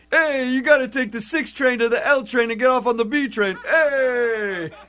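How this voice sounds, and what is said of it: Put-on New York accent. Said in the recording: “New York accent ... so you're still on the New York thing”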